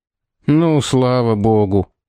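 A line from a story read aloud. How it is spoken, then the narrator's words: Relieved sigh. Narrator (Russian): вздохнул один из секундантов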